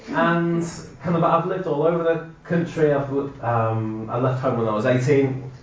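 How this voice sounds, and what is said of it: Slight Scouse accent. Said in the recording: “You might be able to hear a twang of Scouser in there.”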